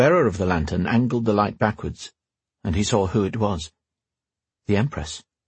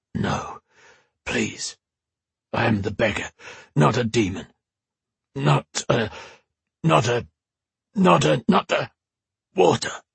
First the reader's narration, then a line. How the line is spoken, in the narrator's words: was all he managed to croak out